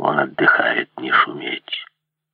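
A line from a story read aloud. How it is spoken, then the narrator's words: Quiet. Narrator (Russian): тихо сказал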